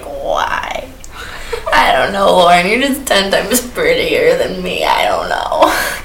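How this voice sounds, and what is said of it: Impersonating own drunk voice. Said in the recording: “my impersonation of a drunk self”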